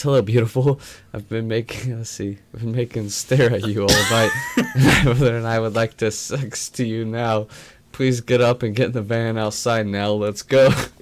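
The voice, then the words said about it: Put-on Russian accent. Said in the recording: “in a Russian accent”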